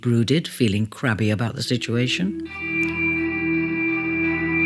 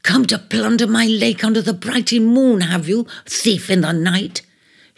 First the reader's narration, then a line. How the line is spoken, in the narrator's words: she accused scornfully